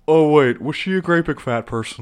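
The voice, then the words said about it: Imitates a movie character's voice. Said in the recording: “That's a pretty good impression.”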